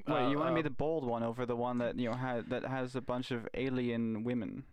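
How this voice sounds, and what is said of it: English accent. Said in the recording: “guy with English-ish accent ... I was born in London”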